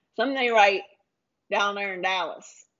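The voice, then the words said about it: Weak put-on Texas accent. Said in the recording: “That's not a good Dallas accent either ... Was it a good Texas accent?”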